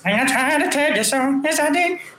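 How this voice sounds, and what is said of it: Imitates another person's singing voice. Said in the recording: “do his little voice.”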